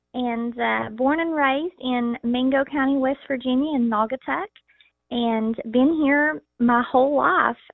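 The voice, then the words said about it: Thick Southern West Virginia accent. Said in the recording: “a very thick Southern accent, but being from West Virginia, it's hard to get away from that accent”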